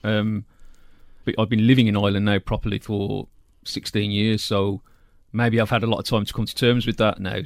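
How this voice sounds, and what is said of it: English-sounding accent. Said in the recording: “people to assume that I was English all the time because of my accent”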